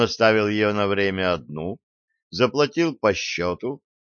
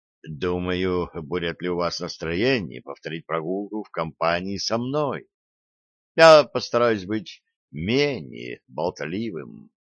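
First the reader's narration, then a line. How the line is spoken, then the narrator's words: Whispering. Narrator (Russian): он прошептал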